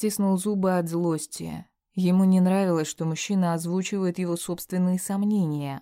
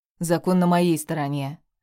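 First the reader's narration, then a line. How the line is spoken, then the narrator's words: Snorting. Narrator (Russian): собеседник фыркнул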